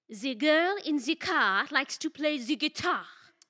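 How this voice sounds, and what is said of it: Put-on French accent. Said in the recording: “you just did the French accent again ... Yeah, that's French”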